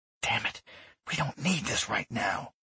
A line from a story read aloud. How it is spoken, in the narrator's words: she hissed